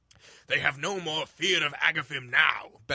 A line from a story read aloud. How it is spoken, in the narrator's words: bellowed Grignir in a deep, mirthful tome